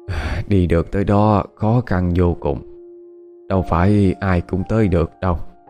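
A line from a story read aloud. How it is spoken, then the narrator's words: Old person's sigh. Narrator (Vietnamese): Cụ cố thở dài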